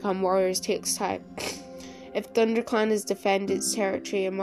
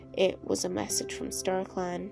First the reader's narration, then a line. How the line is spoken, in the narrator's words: she murmured